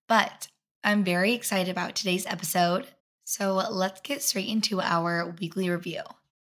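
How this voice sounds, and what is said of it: Raspy voice. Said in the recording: “my voice is raspy, and I've come to a conclusion it's because of allergies”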